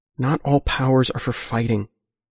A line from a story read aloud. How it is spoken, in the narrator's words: Geometer says quietly